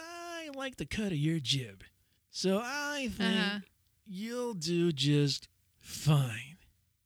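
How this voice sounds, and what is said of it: Weird put-on voice. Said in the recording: “that was a weird voice.”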